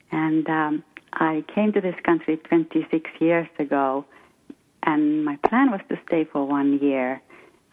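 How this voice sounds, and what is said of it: Finnish accent in English. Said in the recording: “I understand from your accent that you were born in another country ... I'm from Finland. I'm Finnish.”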